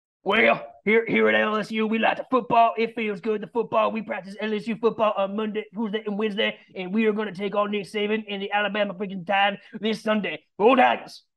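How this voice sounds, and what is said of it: Imitates another person's voice. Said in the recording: “I do a tremendous impersonation ... as former Coach O”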